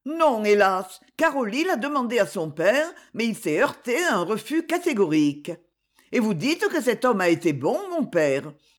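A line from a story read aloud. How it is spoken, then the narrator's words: Protesting tone. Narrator (French): dit Myrto d'un ton de protestation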